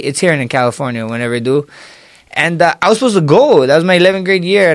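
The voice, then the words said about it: Hawaiian Pidgin accent. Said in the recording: “I still have an accent, ... I still talk moke a lot. ... moke is like, or pigeon. ... us Hawaiian.”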